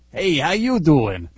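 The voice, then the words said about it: Fake thick New Jersey accent. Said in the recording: “in a fake New Jersey accent ... As if I, you know, really sound like that ... a really thick Jersey accent”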